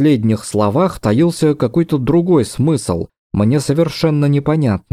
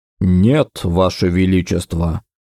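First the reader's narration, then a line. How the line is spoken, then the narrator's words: Overly calm reply. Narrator (Russian): как-то чересчур спокойно отозвался он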